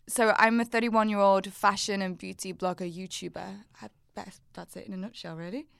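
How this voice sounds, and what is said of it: Wirral English accent. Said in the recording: “my accent. From the Wirral.”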